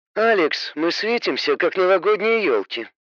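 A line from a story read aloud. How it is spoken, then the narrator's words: Grumbled. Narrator (Russian): проворчала тень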